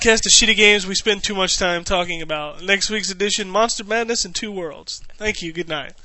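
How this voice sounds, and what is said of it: Usual voice. Nothing is said of it.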